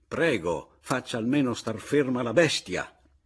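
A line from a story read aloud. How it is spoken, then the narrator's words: Exasperated shout. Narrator (Italian): non ne poté più e gridò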